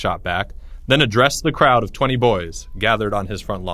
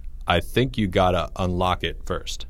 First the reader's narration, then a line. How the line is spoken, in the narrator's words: Jake said